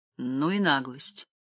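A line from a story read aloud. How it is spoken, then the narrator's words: Muttered. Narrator (Russian): пробормотал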